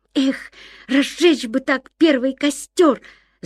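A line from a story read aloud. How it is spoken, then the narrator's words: Ardent exclamation. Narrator (Russian): с жаром воскликнул Ян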